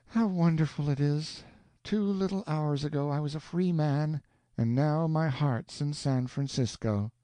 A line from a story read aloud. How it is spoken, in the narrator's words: heaved a sigh and said